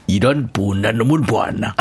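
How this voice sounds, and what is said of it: Imitates another person's voice. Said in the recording (Korean): “성대모사가 있어요”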